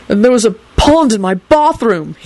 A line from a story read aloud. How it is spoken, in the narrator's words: he added indignantly